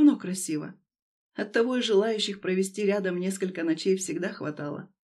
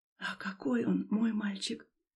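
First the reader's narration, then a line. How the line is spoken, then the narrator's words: Whispered. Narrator (Russian): прошептала Люба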